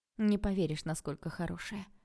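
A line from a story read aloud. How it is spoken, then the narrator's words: Gloomy reply. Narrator (Russian): мрачно ответила я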